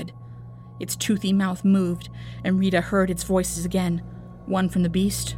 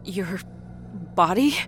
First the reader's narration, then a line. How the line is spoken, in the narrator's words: Rita whimpered